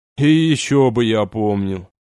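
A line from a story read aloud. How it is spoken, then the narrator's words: Displeased mutter. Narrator (Russian): недовольно пробурчал Олег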